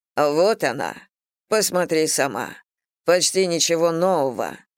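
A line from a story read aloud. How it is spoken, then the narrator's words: Muffled, hollow voice. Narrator (Russian): глухо произнес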